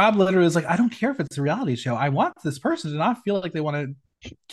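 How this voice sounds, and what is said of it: Usual voice. Nothing is said of it.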